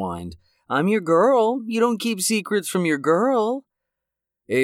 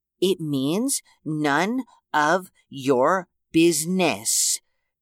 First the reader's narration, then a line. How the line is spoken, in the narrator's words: Ava said, enunciating each word slowly